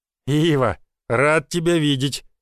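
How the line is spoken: Pleased deep bass. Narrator (Russian): довольным голосом пробасил владелец лесопилки

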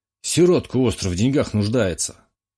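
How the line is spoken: Snorting remark. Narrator (Russian): хмыкнул тот

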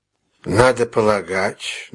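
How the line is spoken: Tired, summing up. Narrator (Russian): начал Мегре устало, как бы подводя итог делу

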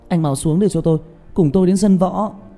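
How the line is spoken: Shout. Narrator (Vietnamese): Trương Tiểu Nhị hét lên

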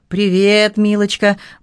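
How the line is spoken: Cheerful friendly tone. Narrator (Russian): бодро проговорил Дел без враждебности

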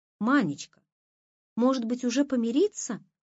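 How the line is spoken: Timid question. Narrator (Russian): робко спрашивал Моня

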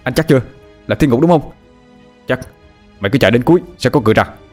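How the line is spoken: Shouted back. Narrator (Vietnamese): Tôi hét lại

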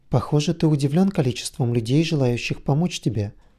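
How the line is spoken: Plain question. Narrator (Russian): спросил Оми

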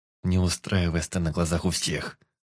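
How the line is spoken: Through teeth, forced calm. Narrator (Russian): Сквозь зубы отозвался, изображая невозмутимую улыбку

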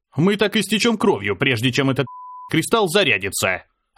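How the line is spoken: Barking. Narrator (Russian): рявкнул

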